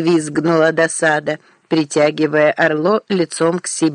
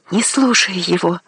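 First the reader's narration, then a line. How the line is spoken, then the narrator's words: Frantic whisper in ear. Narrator (Russian): неистово прошептала досада Орло в ухо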